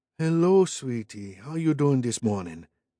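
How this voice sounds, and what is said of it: Thick, slow, syrupy Cajun accent. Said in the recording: “deep into her customer voice, ramping up the Cajun accent and pouring molasses over every word”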